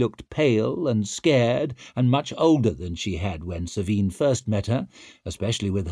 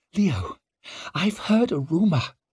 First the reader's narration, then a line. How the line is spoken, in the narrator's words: she said the words in a horrified whisper